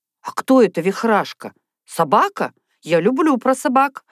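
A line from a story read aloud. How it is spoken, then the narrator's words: Exclaimed. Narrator (Russian): воскликнула Люся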